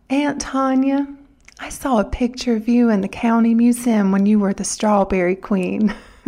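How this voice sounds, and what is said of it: Sweet Southern girl's voice. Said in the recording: “in her sweetest Southern voice”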